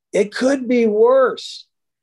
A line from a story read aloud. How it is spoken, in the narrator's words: he says, he yells out